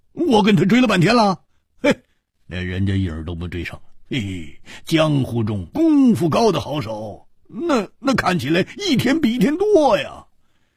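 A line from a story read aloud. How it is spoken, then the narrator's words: Wry laugh. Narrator (Chinese): 胡铁花苦笑着说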